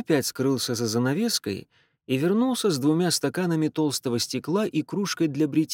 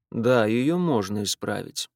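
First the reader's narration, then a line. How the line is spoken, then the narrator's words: Dry admission. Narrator (Russian): сухо признал тот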